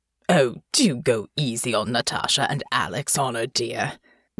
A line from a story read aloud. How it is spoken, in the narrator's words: Lord Bellevue said, chuckling